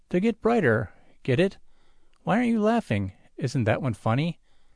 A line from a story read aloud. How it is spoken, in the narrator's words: Jot sighs gustily